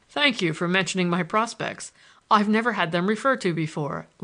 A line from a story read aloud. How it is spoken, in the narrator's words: laughed Stoddard